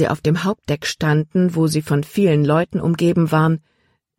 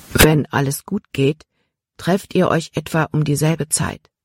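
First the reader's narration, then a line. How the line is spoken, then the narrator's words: Quiet addition. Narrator (German): fügte er leise hinzu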